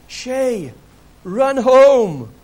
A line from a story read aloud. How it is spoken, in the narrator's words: the boys from both teams ran behind him screaming